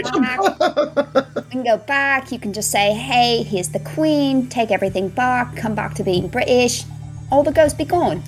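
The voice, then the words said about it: Southern American accent. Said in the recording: “a chick with a southern accent”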